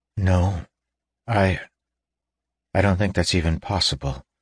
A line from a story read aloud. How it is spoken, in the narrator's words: said Davian quietly